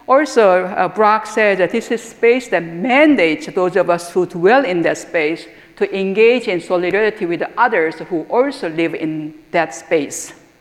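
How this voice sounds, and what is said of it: Non-native English accent. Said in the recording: “immigrant woman of color speaking with accent”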